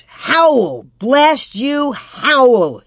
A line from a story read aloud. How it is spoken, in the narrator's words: shouted